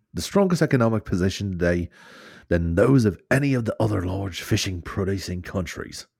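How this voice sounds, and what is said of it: Put-on Irish accent. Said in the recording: “that did sound better ... Less weird in an Irish accent ... getting good at my just general delivery Irish accent”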